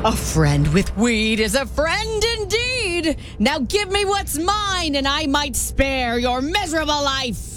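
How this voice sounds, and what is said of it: Scary leprechaun character voice. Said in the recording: “Scary, scary, scary impression ... Oh, that's scary. ... That's the leprechaun.”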